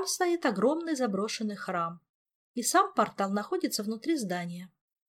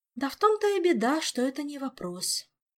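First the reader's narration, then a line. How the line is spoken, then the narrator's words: Sighed. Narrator (Russian): вздохнула мэтресса Морриган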